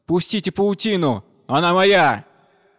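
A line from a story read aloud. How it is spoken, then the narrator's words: Frightened loud shout. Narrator (Russian): испугавшись, и громко закричал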